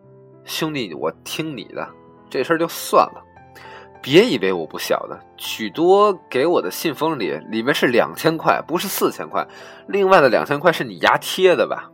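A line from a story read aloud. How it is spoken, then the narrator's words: Chuckling. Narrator (Chinese): 我也嘿嘿一笑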